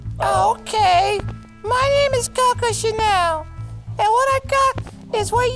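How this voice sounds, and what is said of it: Imitating Coco's voice. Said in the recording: “do her voice”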